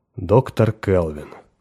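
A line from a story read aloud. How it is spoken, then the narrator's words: Calm. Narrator (Russian): произнес генерал спокойно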